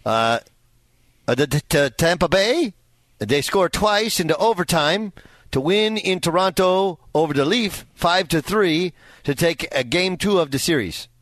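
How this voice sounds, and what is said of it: Put-on French-Canadian accent. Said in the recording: “That's my French-Canadian accent, by the way. ... That's great. On point.”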